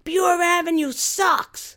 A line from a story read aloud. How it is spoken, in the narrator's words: we yelled loud enough for the man to hear